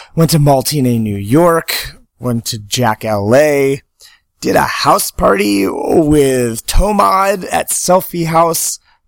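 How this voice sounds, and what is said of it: Hoarse, worn-out voice. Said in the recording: “my voice is gone because I've been at the past 5 days of doing shows”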